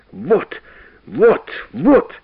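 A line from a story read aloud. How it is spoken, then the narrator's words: Hoarse shouting. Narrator (Russian): хрипло кричал профессор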